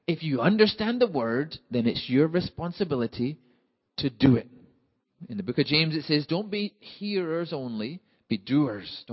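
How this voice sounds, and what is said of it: Scottish accent. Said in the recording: “my Scottish accent is not so difficult that you can't understand. But we need a Scottish to English translator too”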